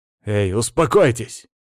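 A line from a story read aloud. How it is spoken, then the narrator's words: Barked. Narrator (Russian): рявкнул я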